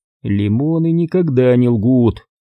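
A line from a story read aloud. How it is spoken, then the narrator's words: Bitter sigh. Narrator (Russian): с горечью вздохнул Грофилд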